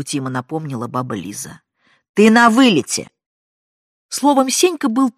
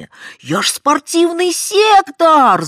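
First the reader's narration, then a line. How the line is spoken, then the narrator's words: Yelling. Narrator (Russian): завопил он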